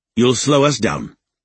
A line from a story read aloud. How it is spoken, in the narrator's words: Raiden said curtly